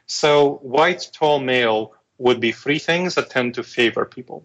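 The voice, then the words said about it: Weird-sounding foreign accent. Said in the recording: “I have a foreign accent, weird-sounding foreign accent”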